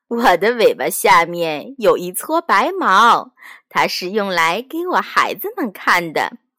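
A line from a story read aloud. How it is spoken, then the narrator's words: Smiling mother. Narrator (Chinese): 兔妈妈笑着对它说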